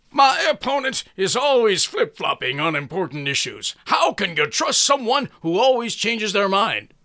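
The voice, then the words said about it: Loud politician-style speaking voice. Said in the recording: “put on my politician voice ... That's pretty loud ... If that's too loud, sorry about that”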